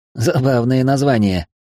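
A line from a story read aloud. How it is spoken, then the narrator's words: Snorting. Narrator (Russian): фыркнул Смирнов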